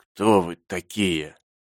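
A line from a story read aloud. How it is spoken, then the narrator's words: Hollow muffled question. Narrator (Russian): спросил глухим голосом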